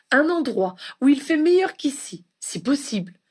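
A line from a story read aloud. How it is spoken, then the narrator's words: Exclaiming. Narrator (French): s'écria Ginny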